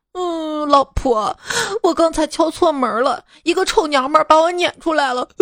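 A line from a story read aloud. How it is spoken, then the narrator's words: Aggrieved, near tears. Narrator (Chinese): 委屈的快哭了，说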